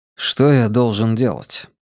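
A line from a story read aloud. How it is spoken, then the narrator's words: Hoarse old man asking. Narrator (Russian): Старик хрипло вздохнул и спросил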